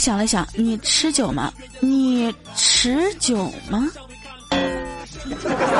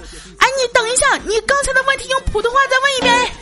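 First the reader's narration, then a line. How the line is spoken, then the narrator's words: Shouting. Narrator (Chinese): 我洪坤啊，直接大喊说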